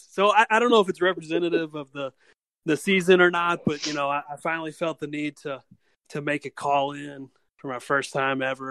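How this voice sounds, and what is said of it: American accent. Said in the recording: “Nice to hear American accent.”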